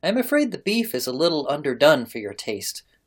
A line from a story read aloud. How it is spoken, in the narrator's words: observed she kindly